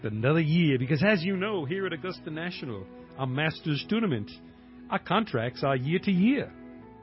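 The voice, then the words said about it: Put-on Southern American accent. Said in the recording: “speak to the world as only I can with my southern cracker accent”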